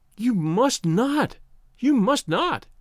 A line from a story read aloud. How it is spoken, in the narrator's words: cried wildly